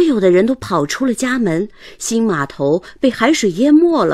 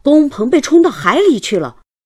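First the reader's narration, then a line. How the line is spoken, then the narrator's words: Urgent shout. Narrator (Chinese): 工头突然急匆匆地闯进来，大喊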